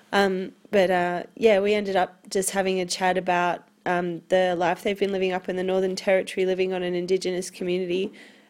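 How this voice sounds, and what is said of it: Congested, stuffy-nosed voice. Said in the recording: “I've got a cold.”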